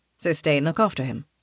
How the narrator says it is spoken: Raphael says quietly

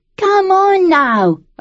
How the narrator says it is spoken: a boy shouted from the back

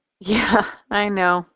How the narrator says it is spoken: she sighs

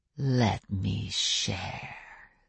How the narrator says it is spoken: the other vampire said in a soft voice

